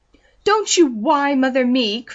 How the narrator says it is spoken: cried Mrs

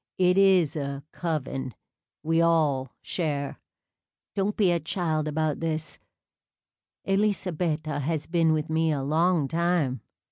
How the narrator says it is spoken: Alaric said smoothly

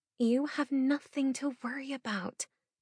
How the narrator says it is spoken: Emmy whispers

